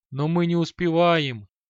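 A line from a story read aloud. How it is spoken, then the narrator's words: Pleading. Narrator (Russian): Взмолился Шамшуддин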